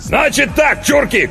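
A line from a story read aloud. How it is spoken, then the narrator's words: Shout. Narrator (Russian): крикнул он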